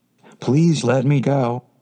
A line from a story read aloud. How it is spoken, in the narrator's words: it cried